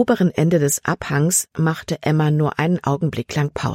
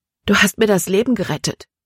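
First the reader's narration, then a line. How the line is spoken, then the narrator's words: Panting. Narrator (German): keuchte Libby, sobald sie wieder zu Atem kam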